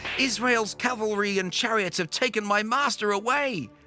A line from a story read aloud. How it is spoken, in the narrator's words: shouted